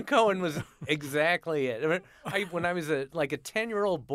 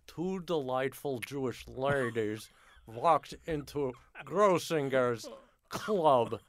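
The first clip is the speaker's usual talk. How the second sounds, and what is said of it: Impression of Myron Cohen. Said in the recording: “my Myron Cohen impression”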